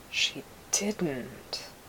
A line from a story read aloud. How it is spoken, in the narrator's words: Depa whispered